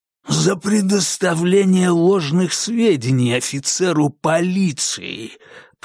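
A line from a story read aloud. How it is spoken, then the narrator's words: Hoarse rasp. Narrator (Russian): прохрипел Конгден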